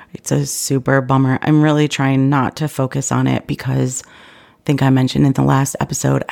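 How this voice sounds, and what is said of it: Sick, congested-sounding voice. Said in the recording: “If you can't tell from my voice, I have been sick.”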